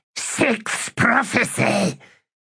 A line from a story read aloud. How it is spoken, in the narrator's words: hissed Squish